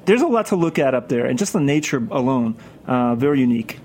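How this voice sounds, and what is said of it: Radio DJ style voice. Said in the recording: “is that your DJ voice?”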